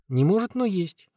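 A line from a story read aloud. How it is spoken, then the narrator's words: Bewildered confirmation. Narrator (Russian): растерянно подтвердил я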